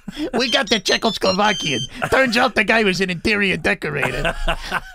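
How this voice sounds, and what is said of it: Tony Soprano character impression. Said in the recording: “You sound good ... You do that good ... I got a good Tony Soprano ... That's very good ... I do the voices”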